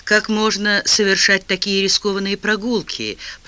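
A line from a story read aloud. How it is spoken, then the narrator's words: Grumbling. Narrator (Russian): проворчал он наконец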